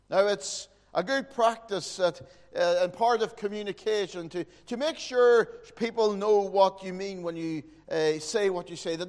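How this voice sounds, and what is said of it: Northern Irish Fermanagh accent. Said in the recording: “my Fermanagh accent”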